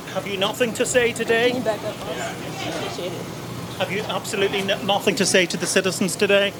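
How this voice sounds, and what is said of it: Put-on British accent. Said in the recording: “accent helps ... For some comedic relief ... the British accent”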